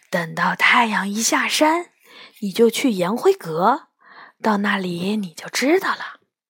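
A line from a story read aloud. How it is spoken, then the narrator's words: Whispering in ear. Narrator (Chinese): 杨永乐贴在我耳边悄声说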